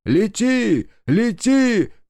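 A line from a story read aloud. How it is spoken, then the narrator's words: Shouting. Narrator (Russian): кричал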